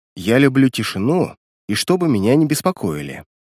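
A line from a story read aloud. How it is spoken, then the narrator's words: Calm female reply. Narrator (Russian): спокойно ответила она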